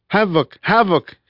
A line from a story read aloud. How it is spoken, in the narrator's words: he called in a thick Italian accent